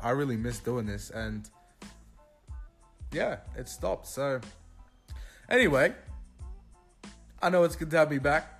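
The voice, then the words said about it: Australian accent. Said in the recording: “authentic Australian accent”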